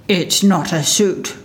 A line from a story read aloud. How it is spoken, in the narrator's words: growled the bear